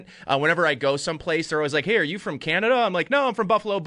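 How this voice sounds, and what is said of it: Western New York, Canadian-sounding accent. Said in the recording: “as a Western New Yorker and Buffalonian, you know, I basically have like an honorary Canadian accent ... I can hear that as well”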